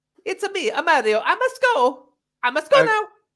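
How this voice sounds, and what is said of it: Put-on Italian accent, Mario-style. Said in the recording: “I could probably do a better Italian accent than ... More Borat.”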